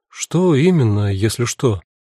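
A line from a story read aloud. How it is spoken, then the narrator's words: Asked in confusion. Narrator (Russian): И Алевтина тогда растерянно спросила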